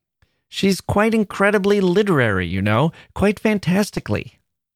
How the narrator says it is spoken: he more than once exclaimed to me

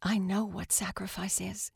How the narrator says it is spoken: the dinner guest said quietly

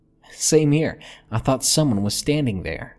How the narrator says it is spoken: she laughed

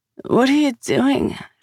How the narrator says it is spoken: She slurred

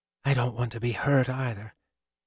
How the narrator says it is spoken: she murmured

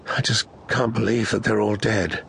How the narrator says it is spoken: she said in a hollow voice

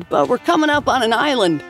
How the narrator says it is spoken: she shouted

